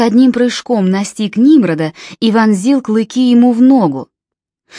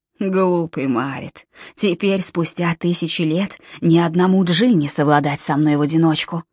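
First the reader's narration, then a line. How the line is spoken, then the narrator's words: Hissed. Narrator (Russian): прошипел он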